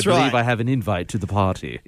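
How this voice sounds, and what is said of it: Put-on fancy accent. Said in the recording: “I feel like I should be putting on an accent ... with a little cravat”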